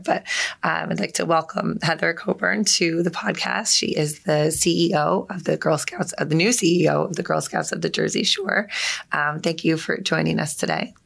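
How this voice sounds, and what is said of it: Raspy voice. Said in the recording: “My voice is a little raspy. I'm also recovering from a little sinus infection that I had. So I just sound very sexy today. ... It's a great radio voice.”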